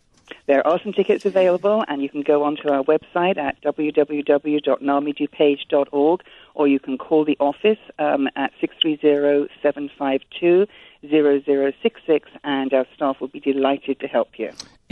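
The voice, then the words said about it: Wheaton regional accent. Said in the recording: “that is a Wheaton accent ... I love her accent”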